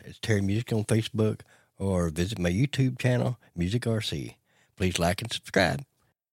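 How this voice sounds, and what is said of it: Put-on radio announcer voice. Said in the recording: “he changed his tone ... I had to get my radio voice”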